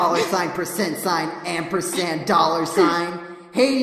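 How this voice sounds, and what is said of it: Usual voice. Nothing is said of it.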